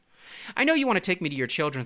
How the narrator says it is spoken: said the fish

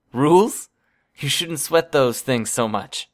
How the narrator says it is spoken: Trickster chuckled

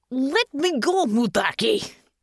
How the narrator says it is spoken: Natasha snarled

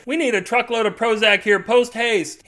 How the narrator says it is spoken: he screams into the radio

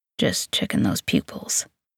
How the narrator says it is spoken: he mutters

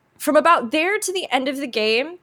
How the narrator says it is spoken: I cried

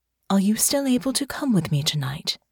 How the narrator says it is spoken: They asked in a gentle tone

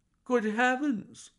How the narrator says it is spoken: I cried

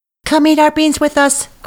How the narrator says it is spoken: cried the monkeys

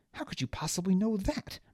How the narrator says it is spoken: Baz snapped

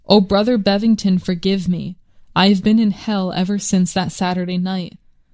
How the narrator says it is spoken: sobbed out

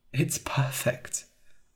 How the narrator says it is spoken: I said quietly

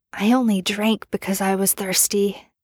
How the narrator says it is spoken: Merlin whispered

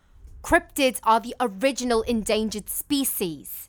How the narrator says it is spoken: she shouted

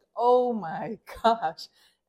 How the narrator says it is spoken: this voice just booms out of the sweat lodge

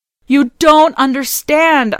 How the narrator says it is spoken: I cried, my words spurting from my common mouth

